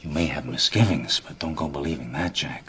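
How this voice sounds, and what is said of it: Historical New York accent. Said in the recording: “historical accent ... The tip of his tongue hits a different place, hits his teeth, which is characteristic of a New York accent.”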